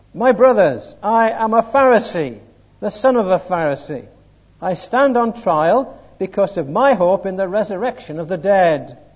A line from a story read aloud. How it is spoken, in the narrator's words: Paul called out in the Sanhedrin